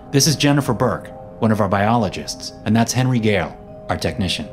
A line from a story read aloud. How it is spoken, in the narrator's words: he said